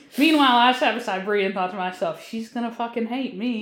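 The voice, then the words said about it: Thick Southern accent. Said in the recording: “this thick-ass Southern accent ... that's a lot of Southern accent in that girl.”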